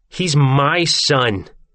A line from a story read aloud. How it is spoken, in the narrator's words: she yells